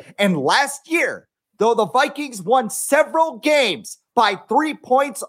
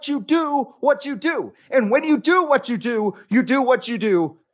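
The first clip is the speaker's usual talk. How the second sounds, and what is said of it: Imitates another person's voice. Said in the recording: “Emmanuel Acho is Brett John Madden impersonation”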